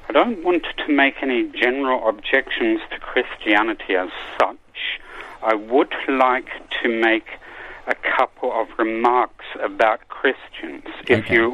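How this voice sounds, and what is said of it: Unusual mixed accent. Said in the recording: “is actually Australian by birth, lives in Germany, but was raised somewhere else, so has an unusual accent.”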